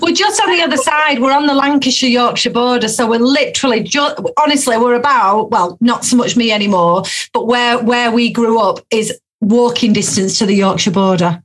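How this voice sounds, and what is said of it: Northern English, Yorkshire-border accent. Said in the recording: “I recognise the accent. ... I'm guessing it's Yorkshire, isn't it? ... Just the border.”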